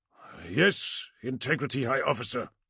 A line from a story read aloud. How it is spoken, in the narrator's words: growled the platoon commander